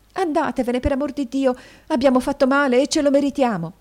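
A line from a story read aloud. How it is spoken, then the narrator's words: Young woman exclaiming. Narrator (Italian): esclamò la signorina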